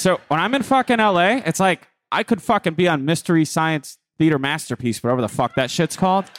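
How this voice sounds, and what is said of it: Thick regional accent. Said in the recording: “Your accent gets so thick”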